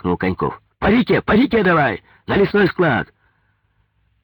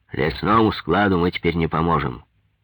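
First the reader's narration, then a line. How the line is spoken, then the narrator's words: Calm. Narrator (Russian): спокойно сказал Голованов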